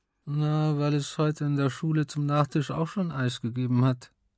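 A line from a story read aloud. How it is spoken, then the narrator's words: Deliberately mumbled. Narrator (German): nuschelte, damit sie es vielleicht nicht ganz so genau verstand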